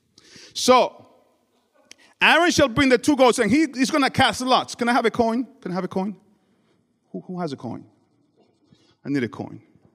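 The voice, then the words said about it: Speaks with a noticeable accent. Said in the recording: “my accent. It's not corn.”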